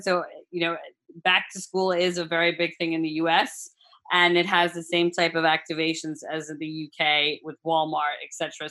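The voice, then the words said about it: American accent. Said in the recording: “you hear my American accent”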